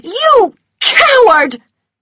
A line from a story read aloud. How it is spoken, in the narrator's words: She screamed